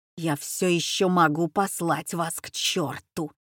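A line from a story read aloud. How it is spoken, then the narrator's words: Stubborn, through teeth. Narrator (Russian): упрямо процедил он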